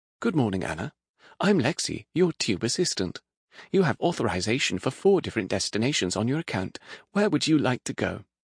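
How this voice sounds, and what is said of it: Woman's voice, British accent. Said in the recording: “a woman's voice spoke with a British accent.”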